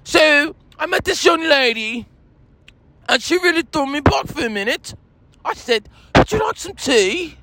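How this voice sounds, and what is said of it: Put-on British accent. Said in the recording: “I'm not American, I'm British. As you can see, I speak with a British accent.”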